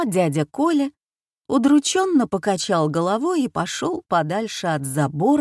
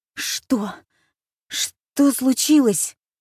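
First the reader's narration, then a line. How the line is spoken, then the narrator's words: Nervous stammer. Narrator (Russian): От волнения он начал заикаться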